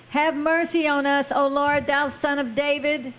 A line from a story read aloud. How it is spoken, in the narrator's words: they cried the more, saying